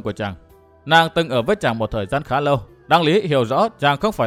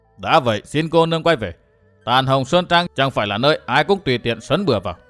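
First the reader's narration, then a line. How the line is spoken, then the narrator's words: Cold speech. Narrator (Vietnamese): Đại hán mặt rỗ lạnh lùng nói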